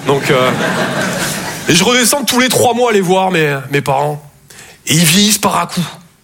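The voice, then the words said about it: Southern French Toulouse accent. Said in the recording (French): “Je viens de Toulouse, à la base. Ouais, ça s'entend un peu ... mon accent”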